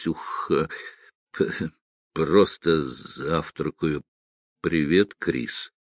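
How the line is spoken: Stammering mumble. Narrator (Russian): он пробормотал, заикаясь

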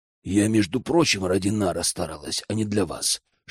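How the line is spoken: Whisper. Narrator (Russian): шептала

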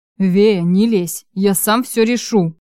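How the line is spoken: Through gritted teeth. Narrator (Russian): процедил Чарослав

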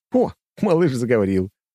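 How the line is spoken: Laughing. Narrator (Russian): рассмеялся я

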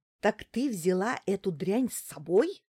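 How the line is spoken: Indignant hiss. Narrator (Russian): зашипела она возмущенно

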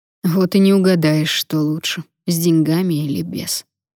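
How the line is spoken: Sighing. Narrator (Russian): вздохнул Потап

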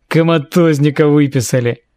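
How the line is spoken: Deep bass voice. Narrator (Russian): Пробасил другой голос

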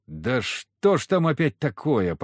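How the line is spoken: Groaning. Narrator (Russian): простонал я

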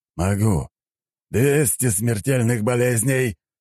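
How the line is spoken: Roaring. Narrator (Russian): взревел он

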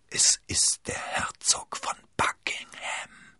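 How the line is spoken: Whisper. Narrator (German): flüsterte Milady

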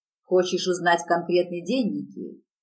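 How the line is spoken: Growling. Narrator (Russian): зарычал он

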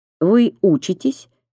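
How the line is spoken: Plain. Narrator (Russian): спросила Лиля

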